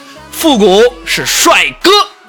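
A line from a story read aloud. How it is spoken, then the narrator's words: Yelling. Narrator (Chinese): 我又对他吼了一句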